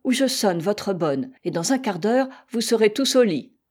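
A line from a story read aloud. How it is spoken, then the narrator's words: Exasperated grandmother exclaiming. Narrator (French): s'écria leur grand-maman, poussée à bout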